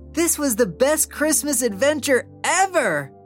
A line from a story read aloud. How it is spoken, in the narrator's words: Oliver exclaimed, his heart racing with joy